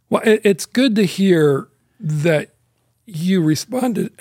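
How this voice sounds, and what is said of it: Choked-up, emotional voice. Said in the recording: “I'm getting all choked up. I'm a little emotional”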